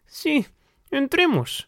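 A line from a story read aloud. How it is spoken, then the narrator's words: Pleading. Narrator (Spanish): suplicó Sholto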